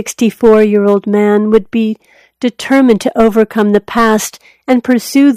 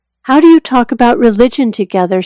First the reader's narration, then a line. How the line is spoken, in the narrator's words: asked